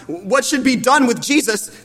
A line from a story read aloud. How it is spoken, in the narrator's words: they shouted out